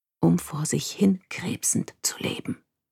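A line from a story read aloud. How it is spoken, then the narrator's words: Whispered. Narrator (German): hatte Edie mir zugeflüstert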